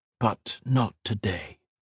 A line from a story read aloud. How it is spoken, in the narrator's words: whispered